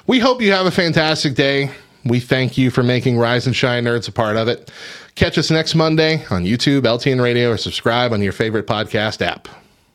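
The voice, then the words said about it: Smooth radio announcer voice. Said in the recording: “So smooth. That was my radio voice. You can hear the radio voice come back in”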